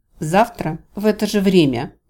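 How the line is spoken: Curt, clipped. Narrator (Russian): отрывисто кинула

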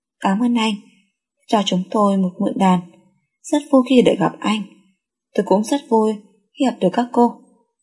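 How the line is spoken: Gentle smiling voice. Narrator (Vietnamese): Đường Tâm mỉm cười, nhẹ nhàng lên tiếng

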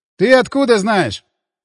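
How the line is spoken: Skeptical snort. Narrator (Russian): хмыкнул брат

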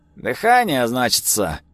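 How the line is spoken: Snorting. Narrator (Russian): хмыкнул он

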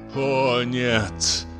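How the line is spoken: Groaning. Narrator (Russian): застонал инженер

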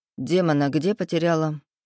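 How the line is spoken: Calm question. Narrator (Russian): спокойно спросил Эдик

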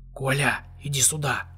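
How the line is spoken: Whispered call. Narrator (Russian): позвал он шепотом

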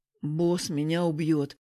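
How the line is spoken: Doomed groan. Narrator (Russian): обреченно простонал Егор

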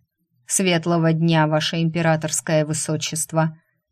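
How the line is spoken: Dull mechanical golem voice. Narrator (Russian): глухим, механическим голосом сказал один из големов

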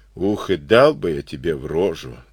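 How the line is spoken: Plain. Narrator (Russian): сказал поручик

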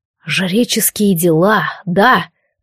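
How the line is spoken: Hiss. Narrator (Russian): прошипел первым все сообразивший Алистар

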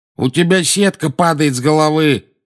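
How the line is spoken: Shouting. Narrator (Russian): крикнул наземникус

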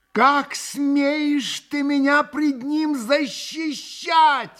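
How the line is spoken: Wailing. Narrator (Russian): вопила Грушенька

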